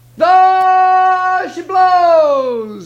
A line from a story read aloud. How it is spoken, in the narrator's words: he hollered